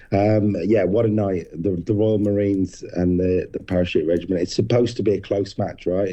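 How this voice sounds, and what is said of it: Hoarse, strained voice. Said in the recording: “you're losing your voice a little bit”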